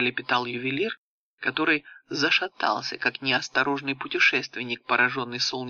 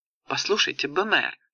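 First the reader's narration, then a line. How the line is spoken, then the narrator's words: Exclaimed. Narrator (Russian): воскликнула королева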